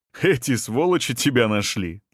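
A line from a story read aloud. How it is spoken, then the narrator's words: Laughing. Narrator (Russian): засмеялся Семен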